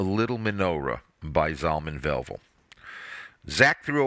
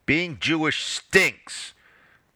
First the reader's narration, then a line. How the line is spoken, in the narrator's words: Zach shouted as he stomped up the stairs